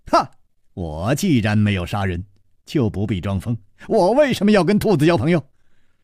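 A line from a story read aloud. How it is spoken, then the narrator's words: Laughing. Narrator (Chinese): 笑着说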